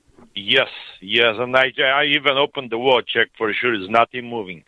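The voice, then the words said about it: Fabulous voice with notable accent. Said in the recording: “you have a fabulous voice and a fabulous accent ... that is a great voice”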